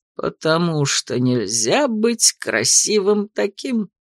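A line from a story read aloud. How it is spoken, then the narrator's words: Eager agreement with chuckle. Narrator (Russian): охотно поддакнул Артур, хохотнув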